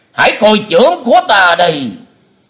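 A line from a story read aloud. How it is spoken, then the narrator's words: Loud shout. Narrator (Vietnamese): Bệnh Túy thần quân quát lớn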